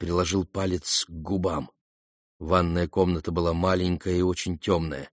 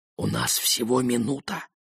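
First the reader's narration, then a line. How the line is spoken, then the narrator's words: Whispered. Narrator (Russian): прошептал Ген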